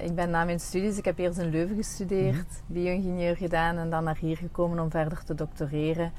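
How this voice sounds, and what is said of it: Limburg Flemish accent. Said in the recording (Dutch): “met een Limburgs accent”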